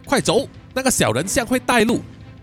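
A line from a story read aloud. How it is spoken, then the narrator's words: Shouting. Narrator (Chinese): 卡瑞娜就大喊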